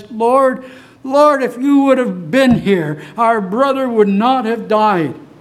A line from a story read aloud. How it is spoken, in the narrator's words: in her voice, broken with her sobs, she says